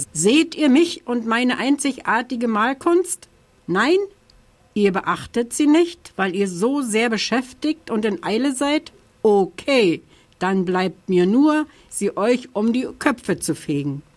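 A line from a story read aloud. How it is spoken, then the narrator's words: Called out. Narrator (German): rief der Oktober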